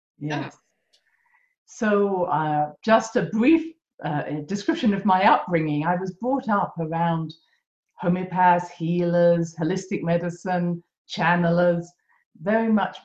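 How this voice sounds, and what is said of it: British accent. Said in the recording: “that beautiful accent from Great Britain”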